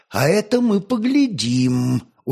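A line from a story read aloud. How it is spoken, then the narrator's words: Calm objection. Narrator (Russian): уже спокойно возразил Петр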